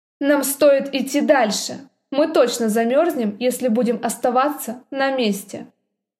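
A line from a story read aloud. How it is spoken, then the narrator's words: Cold. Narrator (Russian): холодно сказал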